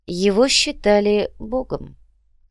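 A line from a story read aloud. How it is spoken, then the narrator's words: Calm reply. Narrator (Russian): спокойно ответил Сантьяго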